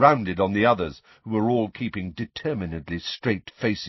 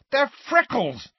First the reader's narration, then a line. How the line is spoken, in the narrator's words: said Ron furiously